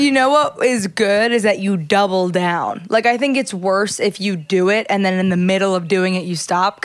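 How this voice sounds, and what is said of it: Usual voice. Nothing is said of it.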